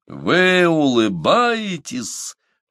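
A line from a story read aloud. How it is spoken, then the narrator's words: Thundering terrible voice. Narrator (Russian): прогремел он страшным голосом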